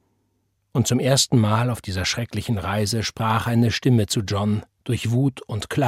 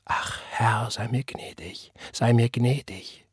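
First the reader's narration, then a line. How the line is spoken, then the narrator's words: Unconscious whisper. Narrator (German): flüsterte er, ohne zu wissen, dass er flüsterte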